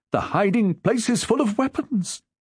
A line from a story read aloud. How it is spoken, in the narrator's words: said in a frightened voice